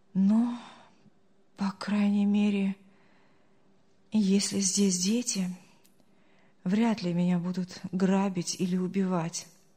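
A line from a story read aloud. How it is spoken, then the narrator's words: Relieved sigh. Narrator (Russian): облегченно вздохнул Артур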